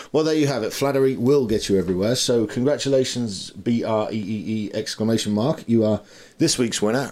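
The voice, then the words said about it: British accent. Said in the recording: “the British accent is a nice bonus”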